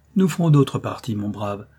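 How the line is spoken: Superior tone. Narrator (French): dit-il à l'Aragonais d'un ton de supériorité

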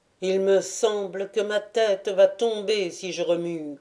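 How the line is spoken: Grumbled. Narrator (French): grogna l'autre

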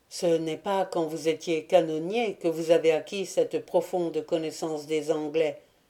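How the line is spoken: Dry remark. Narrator (French): remarqua sèchement le lieutenant

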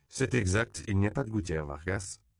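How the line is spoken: Curt confirmation. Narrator (French): confirma sèchement le père Octavio

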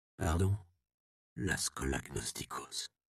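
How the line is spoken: Whispered. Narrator (French): chuchota le Templier

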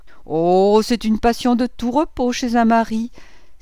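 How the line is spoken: Exclaiming, stifling wicked laugh. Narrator (French): s'écriait Madame Bontemps en étouffant un rire satanique

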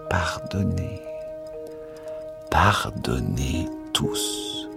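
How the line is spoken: Murmuring. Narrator (French): murmura

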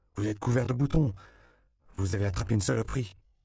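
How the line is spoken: Exclamation. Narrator (French): s'écria-t-il

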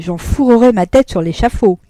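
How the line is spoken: Exclaimed. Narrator (French): s'écria Hussonnet

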